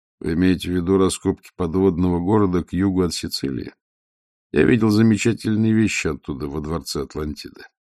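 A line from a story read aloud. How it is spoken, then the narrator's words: Calm question. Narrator (Russian): Веде спокойно спросив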